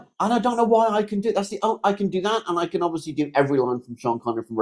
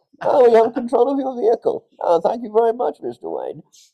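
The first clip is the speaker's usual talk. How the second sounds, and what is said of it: Muffled imitated movie villain voice. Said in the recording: “I don't know why I'm covering mouth by doing this, but apparently it makes me sound better... if I use both hands, I can go full bank”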